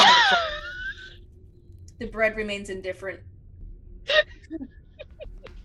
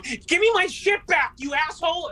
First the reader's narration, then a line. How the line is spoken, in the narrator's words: still in a rage, screams